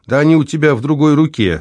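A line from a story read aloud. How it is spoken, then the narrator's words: Laughing. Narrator (Russian): смеялась супруга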